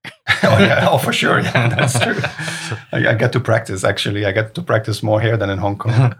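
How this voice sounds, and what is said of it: Nordic accent. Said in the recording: “my Nordic accent”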